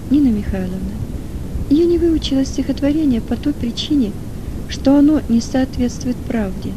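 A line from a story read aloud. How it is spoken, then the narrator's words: Calm. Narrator (Russian): спокойно ответила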